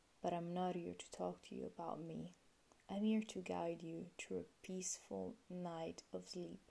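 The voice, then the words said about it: Italian accent. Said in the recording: “I'm originally from Italy, in case you were already wondering about my accent.”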